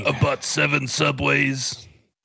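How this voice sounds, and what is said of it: Imitates another person's voice. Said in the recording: “I don't know why I sound like Randy Savage when I'm doing my Deion impression. That's awful.”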